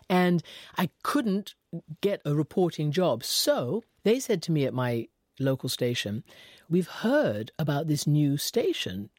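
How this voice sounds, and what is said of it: British accent. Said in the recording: “because of my accent. I was British”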